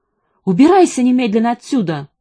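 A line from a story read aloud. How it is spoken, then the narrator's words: Shouting. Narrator (Russian): крикнула она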